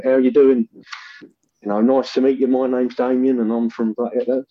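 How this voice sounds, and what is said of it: Put-on rural traveller accent. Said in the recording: “a weird accent ... how stupid I sounded ... I just had a sort of yokelish traveller accent.”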